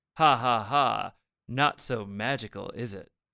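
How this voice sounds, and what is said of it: Malicious condescending Mitch Pileggi narrator impression. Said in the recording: “this very malicious ... good after impression of the narrator ... Mitch Pileggi ... condescending tone”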